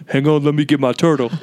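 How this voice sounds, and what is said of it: Deep-voiced impression of another person. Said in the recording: “really deep voice when you impersonate him”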